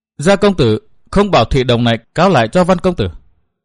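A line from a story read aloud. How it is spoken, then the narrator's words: Cold. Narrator (Vietnamese): Văn Thiên Hào lạnh lùng nói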